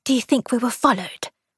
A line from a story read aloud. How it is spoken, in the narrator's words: Aaron whispered